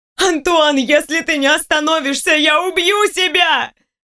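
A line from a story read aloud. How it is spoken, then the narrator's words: Desperate, straining scream. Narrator (Russian): Отчаянно прокричала она из последних сил, срывает горло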